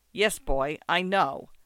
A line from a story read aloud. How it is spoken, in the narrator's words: answered me curtly